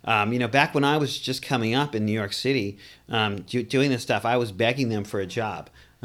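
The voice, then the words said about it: Slight Boston accent. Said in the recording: “I grew up in Boston, too. You may catch that accent a little bit.”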